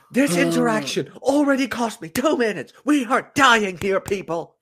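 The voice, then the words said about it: Imitates another person's voice. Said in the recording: “That is my impression of you.”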